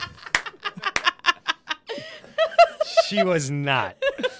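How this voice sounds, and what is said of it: Usual voice. Nothing is said of it.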